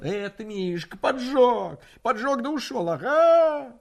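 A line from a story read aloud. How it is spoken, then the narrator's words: Frantic shouting. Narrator (Russian): Точно ему жгло подошвы и кричал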